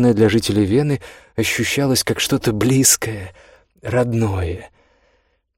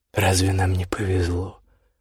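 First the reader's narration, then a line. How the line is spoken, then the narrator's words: Mutter. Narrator (Russian): пробормотал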